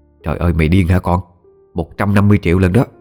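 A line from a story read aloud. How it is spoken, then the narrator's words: Harsh, stern woman. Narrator (Vietnamese): Bà Linh gằn giọng nói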